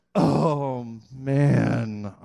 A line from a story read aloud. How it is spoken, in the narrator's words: groan